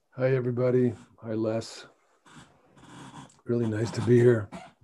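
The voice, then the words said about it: Hoarse, strained voice. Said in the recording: “my voice is a little shot”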